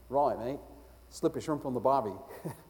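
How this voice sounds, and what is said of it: Put-on Australian accent. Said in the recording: “she spoke with a very fluent Australian accent.”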